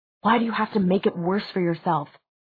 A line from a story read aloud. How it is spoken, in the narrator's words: Jace demanded in a low, tense whisper